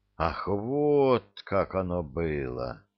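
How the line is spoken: Thoughtful. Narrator (Russian): задумчиво покивал лорд Дайар

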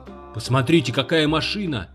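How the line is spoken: Shouting. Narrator (Russian): закричал Уолт

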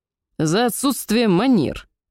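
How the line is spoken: Barking shout. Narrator (Russian): рявкнул эльф

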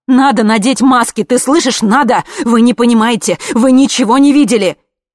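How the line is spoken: Screaming. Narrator (Russian): она тут же закричала

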